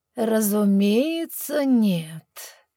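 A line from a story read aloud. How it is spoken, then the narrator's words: Dreamy trance-like purr. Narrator (Russian): промурлыкал практически впавший в медитативный транс Абаддон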